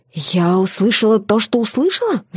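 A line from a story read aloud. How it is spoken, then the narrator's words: Hissed. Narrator (Russian): Зашипела я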